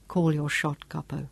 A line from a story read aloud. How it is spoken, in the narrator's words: Sean said quietly